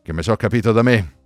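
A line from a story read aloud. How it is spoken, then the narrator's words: Man mumbling. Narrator (Italian): bofonchiò lui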